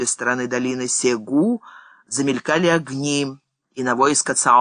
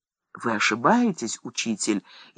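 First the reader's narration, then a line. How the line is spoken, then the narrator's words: Frightened cry. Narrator (Russian): испуганно вскричал Любей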